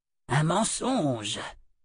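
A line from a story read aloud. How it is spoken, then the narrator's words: Breathy whisper. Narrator (French): souffla Adi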